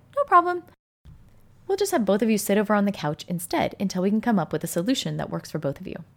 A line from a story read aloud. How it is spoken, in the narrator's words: I calmly said